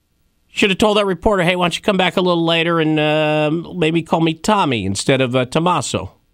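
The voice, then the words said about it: Put-on Brooklyn accent. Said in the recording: “I don't know why I'm doing a Brooklyn accent.”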